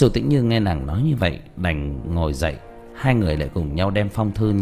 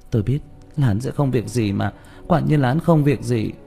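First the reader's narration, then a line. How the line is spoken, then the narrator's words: Sighing mutter. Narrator (Vietnamese): Châu Tĩnh Như thở dài, lẩm bẩm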